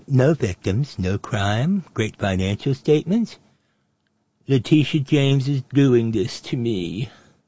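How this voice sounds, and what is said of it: Trump impression drifting toward Droopy. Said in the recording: “my Trump impression's moving a little over into Hanna-Barbera Droopy the Dog territory”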